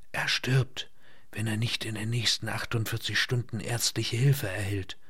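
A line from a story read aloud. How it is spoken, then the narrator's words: Female whisper. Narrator (German): flüsterte sie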